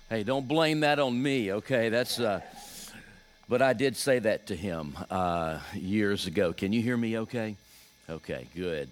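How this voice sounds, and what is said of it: Deep Southern US accent. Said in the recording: “I know that Virginia is technically the South, but I'm from like the deep South, so maybe I should just talk for a few moments and let you catch up with my accent.”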